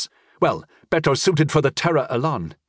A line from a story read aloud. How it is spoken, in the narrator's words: Italia said